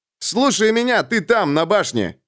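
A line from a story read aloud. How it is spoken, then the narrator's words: Young man's angry shout. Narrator (Russian): со злостью закричал молодой воин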